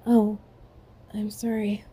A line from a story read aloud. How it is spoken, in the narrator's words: she murmured